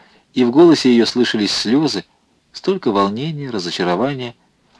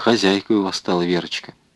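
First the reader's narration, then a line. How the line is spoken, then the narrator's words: Quiet speech. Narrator (Russian): Андреев проговорил негромко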